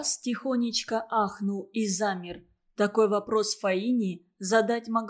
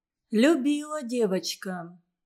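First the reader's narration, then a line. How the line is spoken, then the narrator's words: Calm reply. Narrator (Russian): спокойно ответила Фаина Васильевна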